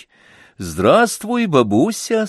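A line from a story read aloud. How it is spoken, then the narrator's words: Loud, cheerful. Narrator (Russian): сказал я громким, бодрым голосом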